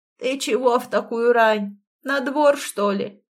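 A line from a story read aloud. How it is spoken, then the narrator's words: Creaky old man's voice. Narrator (Russian): проскрипел старик, не оборачиваясь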